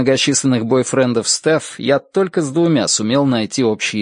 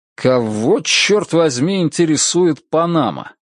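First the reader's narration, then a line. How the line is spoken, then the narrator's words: Irritated question. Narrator (Russian): спрашиваю раздраженным тоном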